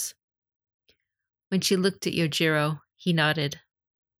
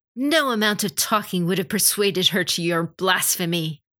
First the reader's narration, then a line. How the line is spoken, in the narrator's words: Hitomi growled